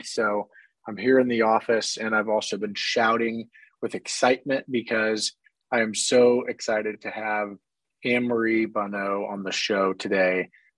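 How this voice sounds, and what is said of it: Hoarse voice. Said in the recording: “hoarse voice, have a little bit of a cold”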